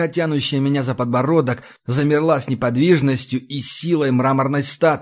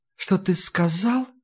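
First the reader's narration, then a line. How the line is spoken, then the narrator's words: Soft female whisper, close. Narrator (Russian): прошептал нежный женский голос прямо мне в ухо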